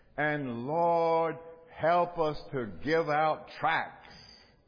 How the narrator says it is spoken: Shaw, the brake doctor, with this deep southern drawl would say

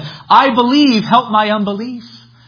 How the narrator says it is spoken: the father of the child cried out and said

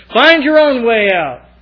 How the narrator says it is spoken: yell back at us

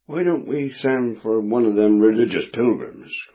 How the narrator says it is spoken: cried another

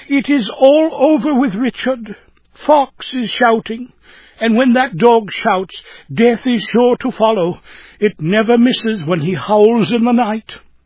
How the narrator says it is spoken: Jane Morehouse exclaiming

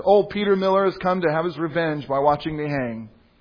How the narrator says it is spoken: the traitor saw Miller, he exclaimed

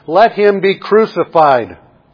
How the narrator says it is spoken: they shouted all the more

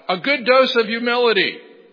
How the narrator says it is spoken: someone in the congregation shouted out

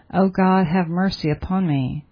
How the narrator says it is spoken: groaned in your spirit and said

